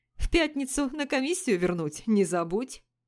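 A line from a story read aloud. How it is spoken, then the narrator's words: Laughing. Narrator (Russian): засмеялся Жак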